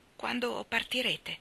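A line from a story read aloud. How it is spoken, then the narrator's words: Trembling question. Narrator (Italian): chiese con voce tremante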